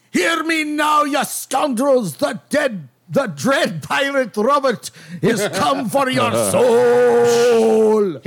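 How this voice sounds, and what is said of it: Put-on Fayir accent. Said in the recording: “in common with a Fayir accent”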